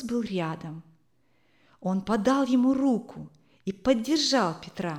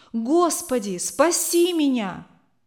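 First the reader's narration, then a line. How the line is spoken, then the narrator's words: Screaming. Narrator (Russian): Он закричал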